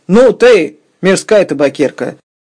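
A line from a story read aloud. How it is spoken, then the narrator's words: Angry shout. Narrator (Russian): крикнул на Фиону Сергей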